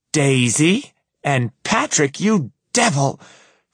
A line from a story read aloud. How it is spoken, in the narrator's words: Francesca screeches